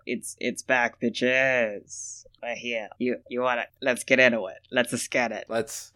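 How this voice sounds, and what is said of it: Sick, croaky witch-like voice. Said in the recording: “I'm still sick and I'm still talking like a witch.”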